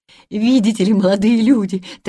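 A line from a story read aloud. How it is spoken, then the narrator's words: Rapid breathless chatter. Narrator (Russian): тараторила тетушка Бринкер, еле переводя дух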